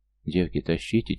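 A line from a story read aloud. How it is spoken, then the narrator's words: Quiet speech. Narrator (Russian): тихонько сказала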